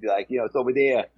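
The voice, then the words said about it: Thick New York accent. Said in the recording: “his real thick New York accent”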